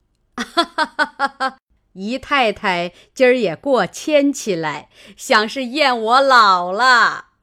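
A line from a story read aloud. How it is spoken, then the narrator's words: Laughing. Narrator (Chinese): 贾母笑道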